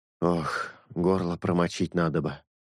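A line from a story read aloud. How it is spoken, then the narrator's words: Breathed out. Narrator (Russian): выдохнул он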